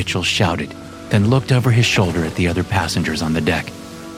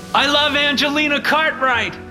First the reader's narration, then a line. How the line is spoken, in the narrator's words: Mitchell shouted again